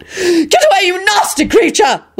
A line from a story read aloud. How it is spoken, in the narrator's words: Lady Fanshawe screeched defiantly